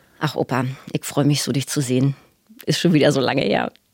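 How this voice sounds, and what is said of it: Put-on Berlin dialect. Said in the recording (German): “du kannst auch den Berliner Dialekt ganz herrlich nachmachen”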